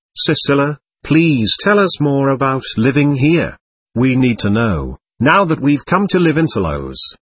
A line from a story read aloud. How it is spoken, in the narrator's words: Emily called out